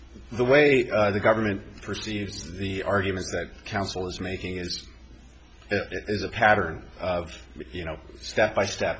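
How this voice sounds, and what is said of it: Congested, stuffy-nosed voice. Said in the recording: “I apologize for my congested tone. I've got a little bit of a cold here.”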